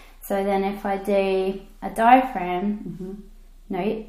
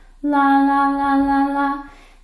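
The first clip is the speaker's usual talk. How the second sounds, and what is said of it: Flat chest-voice singing. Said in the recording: “do a chest voice ... it'd be up here, it'd be pretty flat”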